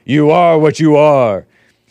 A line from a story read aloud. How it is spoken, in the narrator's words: Big booming voice bellows